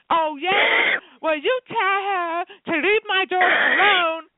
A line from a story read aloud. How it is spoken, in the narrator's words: start screaming into the phone